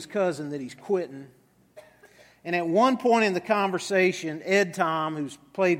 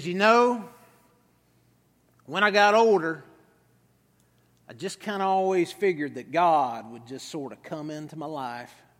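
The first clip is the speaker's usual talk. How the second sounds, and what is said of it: Put-on West Texas accent. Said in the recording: “I'll do my best West Texas accent right here.”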